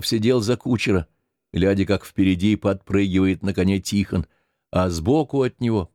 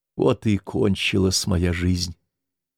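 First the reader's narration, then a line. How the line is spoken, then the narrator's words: Quiet. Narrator (Russian): тихонько сказала она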